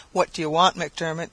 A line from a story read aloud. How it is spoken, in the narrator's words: she said sullenly